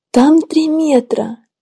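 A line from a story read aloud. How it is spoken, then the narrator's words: Grandmother's frightened whisper. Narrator (Russian): Немного с ужасом прошептала бабушка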